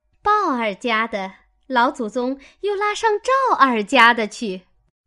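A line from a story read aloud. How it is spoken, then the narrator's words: Laughing. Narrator (Chinese): 鸳鸯笑道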